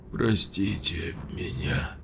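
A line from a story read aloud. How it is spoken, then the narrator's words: Hoarse, remorseful. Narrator (Russian): с искренним раскаянием прохрипел Слава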